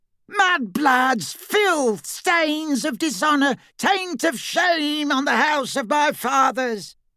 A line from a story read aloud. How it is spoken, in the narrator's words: Black continued to scream